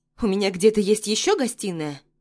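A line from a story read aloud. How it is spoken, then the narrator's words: Irritated question. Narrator (Russian): спрашиваю раздраженным тоном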